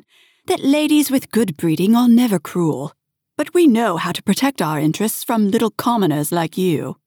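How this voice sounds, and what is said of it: Imitation of a posh lady. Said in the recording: “her best Lady Mortimer impression”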